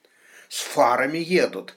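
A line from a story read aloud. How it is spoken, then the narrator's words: Snorting. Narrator (Russian): хмыкнул шериф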